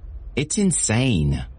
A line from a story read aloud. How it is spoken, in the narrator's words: Elizabeth exclaimed, falling onto the sofa in a huff